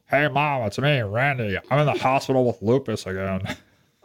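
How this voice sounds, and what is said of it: Pinched, nasal imitated voice. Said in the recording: “it sounds like you were pinching your nose to do that ... why the pinched nose?”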